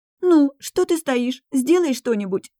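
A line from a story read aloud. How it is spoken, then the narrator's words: Heavy sobbing. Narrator (Russian): Пуще прежнего разрыдалась Юнсу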